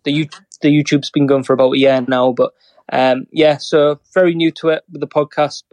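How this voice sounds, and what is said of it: Northern English accent. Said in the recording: “this Northern accent chattering away”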